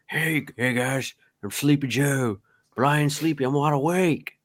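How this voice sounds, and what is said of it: Imitates another person's voice. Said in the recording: “doing the old, like, George W. Bush impersonations ... that sounds like W.”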